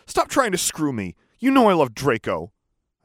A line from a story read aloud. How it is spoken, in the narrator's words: shouted